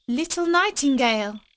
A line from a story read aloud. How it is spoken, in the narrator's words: cried the girl, raising her voice